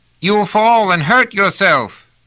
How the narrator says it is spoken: Pellerat called out anxiously

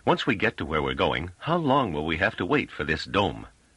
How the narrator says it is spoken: Treviz said impatiently

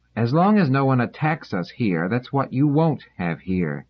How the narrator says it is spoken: Dors said sternly

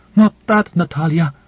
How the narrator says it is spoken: she cried again passionately, her chest heaving in excitement

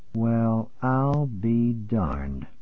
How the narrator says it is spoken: Norman said very slowly

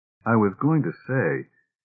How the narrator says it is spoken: said Susan coldly

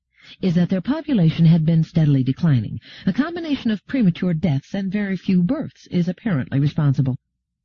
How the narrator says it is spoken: said Gladia calmly

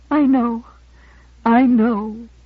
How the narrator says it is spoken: she said brokenly

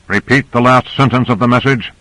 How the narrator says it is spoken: He barked into the transmitter

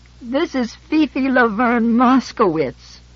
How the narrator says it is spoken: She said wearily

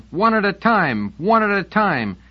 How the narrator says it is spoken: Students were climbing onto the platform now, shouting

